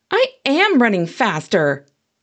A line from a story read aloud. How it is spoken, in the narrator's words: I snapped